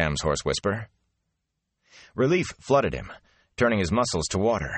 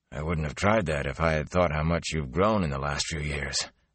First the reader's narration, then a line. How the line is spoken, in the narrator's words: Tam said softly